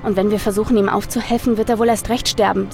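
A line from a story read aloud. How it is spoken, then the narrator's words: Plain. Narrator (German): sagte Nathaniel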